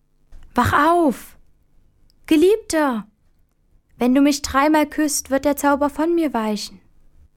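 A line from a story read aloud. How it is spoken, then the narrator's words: Calling out. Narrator (German): die schöne Fee Ilona ... rief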